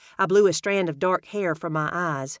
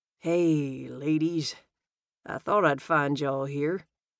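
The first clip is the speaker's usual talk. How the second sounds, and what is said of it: Velvety smooth southern accent. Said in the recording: “He spoke with a velvety, smooth southern accent that fell from his lips like honey.”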